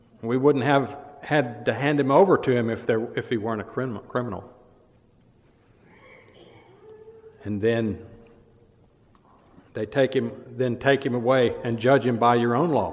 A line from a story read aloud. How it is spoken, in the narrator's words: Pilate said